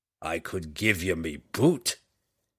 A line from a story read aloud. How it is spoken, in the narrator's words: Bruner growled back